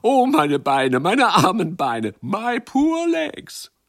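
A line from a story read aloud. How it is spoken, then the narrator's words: Laughing, calling out. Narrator (German): Sie lachten und riefen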